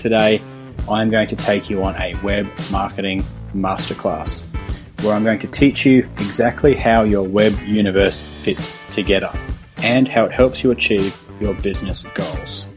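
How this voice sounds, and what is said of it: Australian accent. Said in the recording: “my fun Australian accent”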